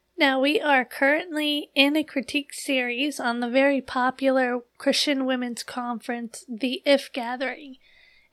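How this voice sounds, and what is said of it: Voice affected by recent illness. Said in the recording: “forgive my voice as I am still recuperating from being sick”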